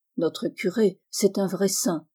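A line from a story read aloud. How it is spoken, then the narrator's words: Murmured. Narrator (French): murmure-t-on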